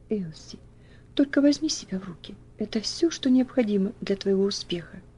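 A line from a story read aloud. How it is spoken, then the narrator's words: Soft whisper. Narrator (Russian): тихонько прошептав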